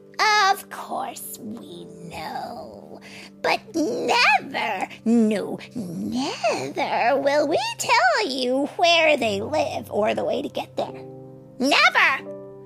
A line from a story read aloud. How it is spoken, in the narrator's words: croaked the old woman with the tooth